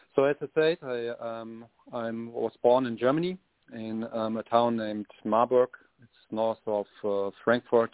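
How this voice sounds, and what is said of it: German accent. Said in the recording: “originally I'm from Germany. You can hear this in my dialect. I'm not Irish.”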